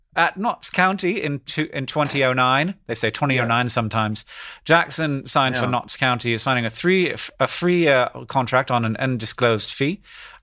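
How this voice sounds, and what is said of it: Inconsistent put-on BBC English accent. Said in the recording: “there are moments when that accent is so good, which makes the other moments so distressing ... oh, that sounds just like the BBC ... woof, he didn't hit that note”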